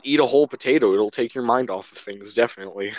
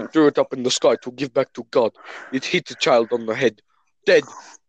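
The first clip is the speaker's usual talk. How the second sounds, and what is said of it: Put-on accent, badly done. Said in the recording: “I'm terrible with accents. The only accent I can do ... That's a terrible accent.”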